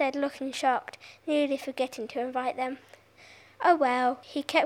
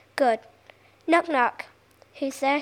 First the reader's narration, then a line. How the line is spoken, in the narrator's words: she asked